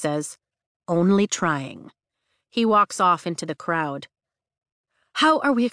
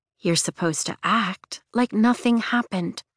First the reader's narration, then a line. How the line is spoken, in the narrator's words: says quietly